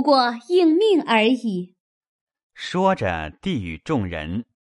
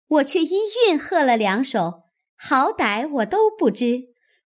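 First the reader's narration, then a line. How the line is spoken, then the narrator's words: Eager, laughing. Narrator (Chinese): 史湘云一心兴头，先笑说道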